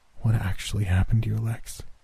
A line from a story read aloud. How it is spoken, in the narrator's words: She asked faintly